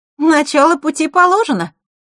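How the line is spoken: Cheerful voice. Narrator (Russian): веселым голосом произнесла Захара

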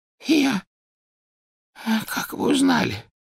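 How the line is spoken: Hoarse wheeze. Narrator (Russian): прохрипел Оливандер

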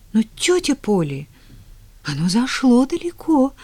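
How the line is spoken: Trembling voice. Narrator (Russian): дрожащим голосом продолжила Поллианна

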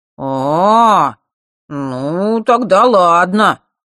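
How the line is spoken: Drawled. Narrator (Russian): протянул Жаба

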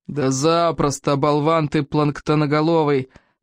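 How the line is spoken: Smug booming voice. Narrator (Russian): прогудел плевака, весьма довольный собой

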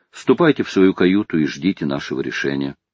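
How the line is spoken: Plain. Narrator (Russian): сказал Гленарван

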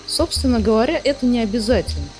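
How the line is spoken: Plain. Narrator (Russian): сказал Андатор

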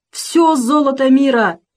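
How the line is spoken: Shouting. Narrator (Russian): кричал Кусандра

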